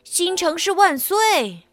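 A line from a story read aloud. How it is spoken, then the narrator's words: Crowd shouting loudly. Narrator (Chinese): 所有的人高声喊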